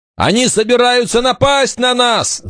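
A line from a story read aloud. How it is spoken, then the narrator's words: Shouted. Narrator (Russian): закричал Вольф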